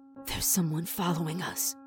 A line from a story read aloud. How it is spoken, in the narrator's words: Sammy said in a choked whisper